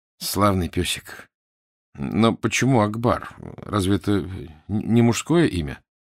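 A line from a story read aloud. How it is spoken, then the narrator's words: Strained, disgusted voice. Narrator (Russian): С отвращением магистр сдавленным голосом сказал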